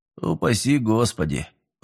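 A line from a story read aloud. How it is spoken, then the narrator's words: Muttering. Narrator (Russian): пробормотал Миллер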